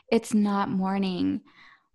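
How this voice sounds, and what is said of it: Sultry sexy voice. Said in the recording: “I don't know why my sexy voice is coming out”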